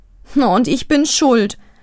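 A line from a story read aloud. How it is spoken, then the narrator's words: Groaning. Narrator (German): stöhnt Birte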